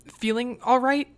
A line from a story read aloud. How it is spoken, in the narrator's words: He stammered